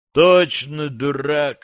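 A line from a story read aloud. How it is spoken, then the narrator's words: Sighing. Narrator (Russian): вздохнул Макс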